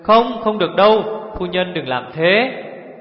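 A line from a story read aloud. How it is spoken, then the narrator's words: Alarmed crying out. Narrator (Vietnamese): Mẫn tướng quân và Hồng tướng công biến sắc kêu lên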